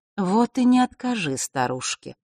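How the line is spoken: Soft, gentle. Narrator (Russian): мягко произнесла черная королева

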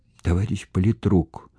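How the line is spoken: Girl whispering. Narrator (Russian): шептала девочка

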